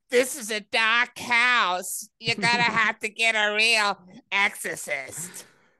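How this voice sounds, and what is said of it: Imitates another person's voice. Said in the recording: “my Lorraine Warren impression”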